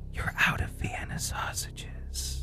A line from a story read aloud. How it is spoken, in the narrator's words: You just whisper and say